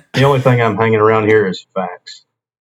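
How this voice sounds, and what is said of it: Put-on South Carolina accent. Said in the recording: “from South Carolina ... I assume with the accent”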